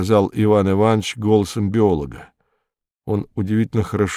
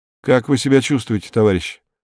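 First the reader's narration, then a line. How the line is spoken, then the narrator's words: Plain. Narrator (Russian): спросил Беркут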